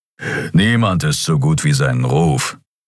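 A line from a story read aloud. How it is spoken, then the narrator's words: Growled. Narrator (German): knurrte Kero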